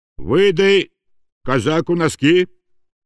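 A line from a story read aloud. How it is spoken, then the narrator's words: Stern. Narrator (Russian): строго обратился волк к Ванде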